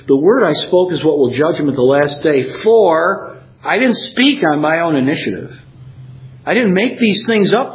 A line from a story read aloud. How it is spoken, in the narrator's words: Jesus says